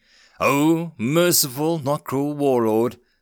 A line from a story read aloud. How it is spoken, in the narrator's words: simpered back, taking care to growl the words